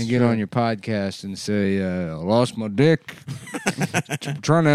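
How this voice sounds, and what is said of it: Usual voice. Nothing is said of it.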